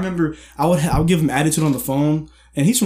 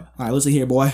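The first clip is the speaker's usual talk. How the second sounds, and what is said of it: Imitated Louisiana accent. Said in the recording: “he's from Louisiana, so his little Louisiana accent come out”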